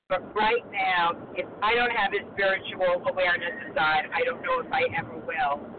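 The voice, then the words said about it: New York accent. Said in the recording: “You could pick up the New York accent.”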